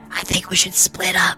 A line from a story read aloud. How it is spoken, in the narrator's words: whispered Bebop